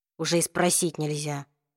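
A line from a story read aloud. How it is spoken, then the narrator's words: Soft hurt voice. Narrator (Russian): мягким голосом выразил обиду Саймон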